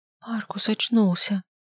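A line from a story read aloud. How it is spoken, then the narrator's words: Strained. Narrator (Russian): выдавил я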